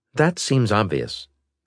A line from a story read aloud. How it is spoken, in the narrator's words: Galleon said